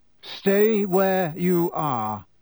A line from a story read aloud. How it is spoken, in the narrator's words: he said in the same hoarse voice